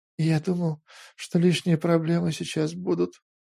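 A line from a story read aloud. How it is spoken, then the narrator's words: Barely audible. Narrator (Russian): еле слышно отозвался Петр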